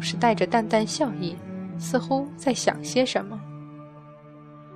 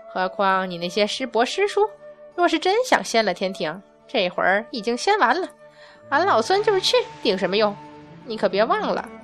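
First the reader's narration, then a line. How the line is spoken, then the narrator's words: Cheeky, playful. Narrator (Chinese): 孙悟空嬉皮笑脸道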